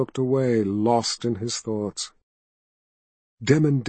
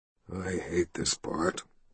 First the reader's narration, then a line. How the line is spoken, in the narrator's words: he muttered to himself